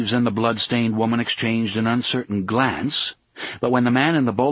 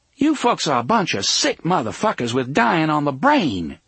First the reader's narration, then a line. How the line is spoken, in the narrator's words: Susanna cried at them